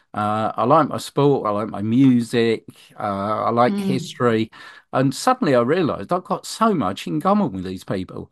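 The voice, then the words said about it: London English accent. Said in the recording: “people can probably tell from the accent, I'm a London lad.”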